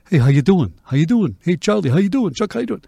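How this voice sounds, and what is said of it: Imitated New Jersey accent. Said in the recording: “they were from New York and New Jersey ... it's not my dialect ... It's one of my favorite accents, though, the Jersey.”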